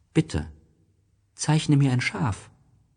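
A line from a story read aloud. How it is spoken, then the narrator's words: Very gentle, serious. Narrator (German): wiederholte es ganz sanft, wie eine sehr ernsthafte Sache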